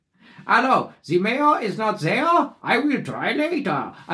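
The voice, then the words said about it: Made-up foreign-sounding accent. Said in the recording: “I'll just do a weird accent that is of indiscriminate origin. ... Just a different kind of French accent. ... It's not French. ... Was it Belgian? ... He made it up.”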